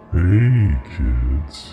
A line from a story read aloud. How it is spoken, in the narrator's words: he said in the creepiest voice ever